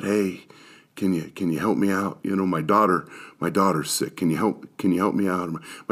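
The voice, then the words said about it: Whispered pleading voice. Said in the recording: “they kind of come over and whisper a little bit”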